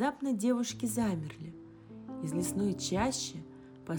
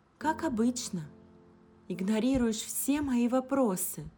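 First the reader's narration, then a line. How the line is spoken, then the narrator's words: Sigh. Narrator (Russian): вздохнула Алиса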